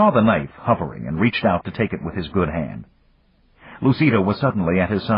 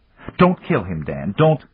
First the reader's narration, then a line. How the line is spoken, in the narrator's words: he laughed